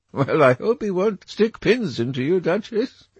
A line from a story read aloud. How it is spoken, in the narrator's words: laughed Dorian